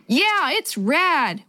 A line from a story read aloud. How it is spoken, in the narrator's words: Willie yelled back